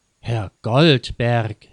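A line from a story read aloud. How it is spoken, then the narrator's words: Astonished, indignant call. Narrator (German): rief Frau Theis ebenso erstaunt wie empört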